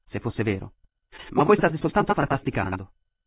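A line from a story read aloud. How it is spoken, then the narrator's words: Impatient tone. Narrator (Italian): disse Katrina con un tono di impazienza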